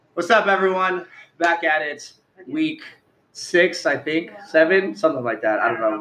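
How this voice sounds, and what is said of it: Hoarse, strained voice. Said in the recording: “I'm losing my voice, apparently.”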